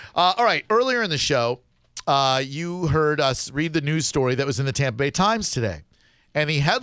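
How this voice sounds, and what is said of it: Usual voice. Nothing is said of it.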